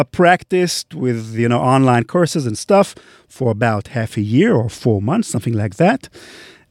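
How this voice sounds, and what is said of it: Non-native English accent. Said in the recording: “I would need to change my accent in a very dramatic way ... my accent improved quite significantly, I think, from my earlier accent”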